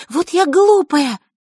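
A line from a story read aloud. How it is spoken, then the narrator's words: Heated exclamation. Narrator (Russian): горячо воскликнула она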